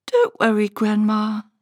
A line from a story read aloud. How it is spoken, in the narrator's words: said Hush